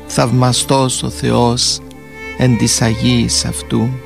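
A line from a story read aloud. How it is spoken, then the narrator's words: Whisper. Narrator (Greek): ψιθύρισε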